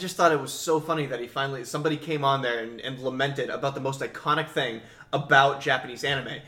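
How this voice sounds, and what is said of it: Usual voice. Nothing is said of it.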